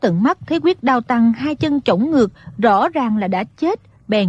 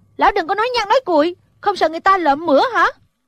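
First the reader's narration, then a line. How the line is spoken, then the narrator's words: Exasperated shout. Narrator (Vietnamese): Thủy Sinh nghe lão nói vậy không nhịn được quát lên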